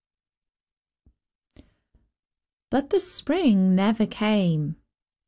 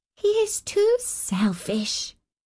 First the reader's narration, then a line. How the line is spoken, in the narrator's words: she said